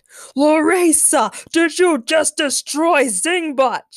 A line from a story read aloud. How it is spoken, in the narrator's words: She screamed in a voice that sounded 10 times louder than any megaphone